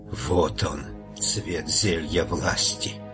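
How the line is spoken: Whisper. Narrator (Russian): она прошептала

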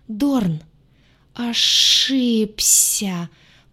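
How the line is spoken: Hiss while surfacing. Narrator (Russian): прошипел главный координатор потоков, выныривая на поверхность

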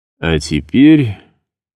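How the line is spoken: Slightly hoarse. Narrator (Russian): заключил он голосом, несколько более хриплым, чем обычно

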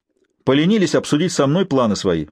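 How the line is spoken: Sharp. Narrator (Russian): резко ответил Норман

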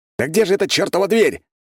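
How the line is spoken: Echoing shout in tunnel. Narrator (Russian): крикнул я, и эхо прокатилось по туннелю

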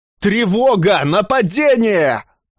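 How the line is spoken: Urgent shout. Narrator (Russian): Александр успел крикнуть

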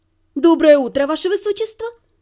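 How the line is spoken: Cheerful greeting. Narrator (Russian): бодро поприветствовала я

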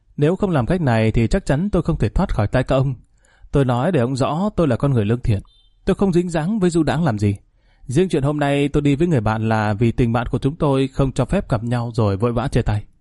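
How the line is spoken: Smiling. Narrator (Vietnamese): Chàng ... mỉm cười nói

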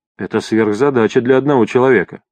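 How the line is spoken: Calm reply. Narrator (Russian): спокойно ответил Изон

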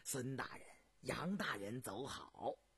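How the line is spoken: Laughing. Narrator (Chinese): 邝世臣 口中笑道

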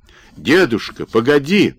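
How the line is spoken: Acorn shouting after someone. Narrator (Russian): крикнул вдогонку желудь

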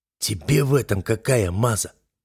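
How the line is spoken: Hoarse, incredulous question. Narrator (Russian): хрипло спросил он, не веря своему счастью

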